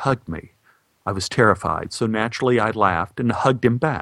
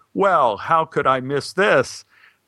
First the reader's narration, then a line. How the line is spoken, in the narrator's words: The man laughed the laugh of unbridled joy mixed with a pot of coffee